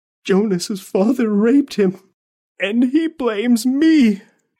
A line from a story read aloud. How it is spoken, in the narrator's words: she whimpered